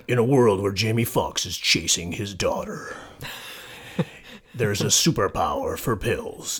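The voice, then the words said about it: Dramatic movie trailer narrator voice. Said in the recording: “I'm going to read it in a movie voice.”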